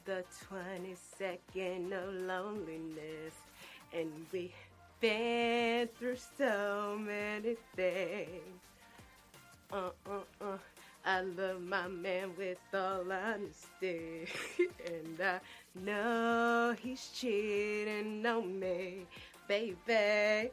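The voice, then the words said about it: Imitates another singer's voice. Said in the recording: “I have a really good T-Boss impersonation”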